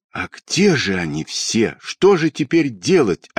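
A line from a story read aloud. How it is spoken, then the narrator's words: Desperate voice. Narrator (Russian): отчаянным голосом сказала Тома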